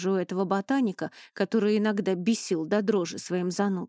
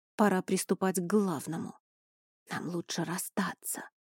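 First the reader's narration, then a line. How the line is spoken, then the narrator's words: Whispered prompt. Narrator (Russian): шепотом подсказал Эней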